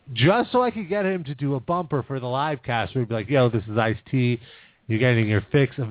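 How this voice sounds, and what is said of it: Usual voice. Nothing is said of it.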